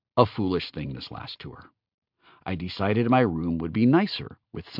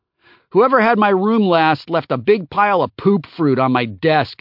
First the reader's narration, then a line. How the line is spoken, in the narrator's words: Neve yelled from their room